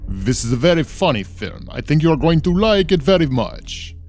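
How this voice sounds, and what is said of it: Dracula voice with Spanish accent. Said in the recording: “Count Dracula ... I don't know why I also have a Spanish accent ... a little bit of an Italian Dracula”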